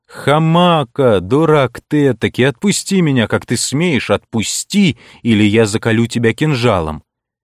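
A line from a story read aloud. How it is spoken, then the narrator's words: Angry half-laughing shout. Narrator (Russian): Пленник сердито, но в то же время полусмеясь закричал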